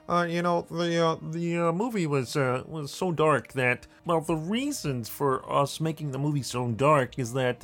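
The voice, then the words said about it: Kermit the Frog-like voice. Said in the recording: “put on my Lucas voice here, which is very much like Kermit the Frog”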